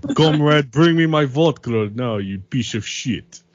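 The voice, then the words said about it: Put-on Russian accent. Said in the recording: “I could do a pretty good Russian accent.”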